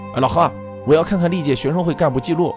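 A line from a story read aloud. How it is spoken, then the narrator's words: Shouting. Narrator (Chinese): 对会长喊道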